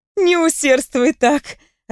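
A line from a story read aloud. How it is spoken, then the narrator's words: Laughing. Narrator (Russian): рассмеялась я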